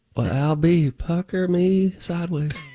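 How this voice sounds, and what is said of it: Put-on Southern drawl. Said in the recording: “we have to chime in like Charlene ... We must say the answer in a southern draw.”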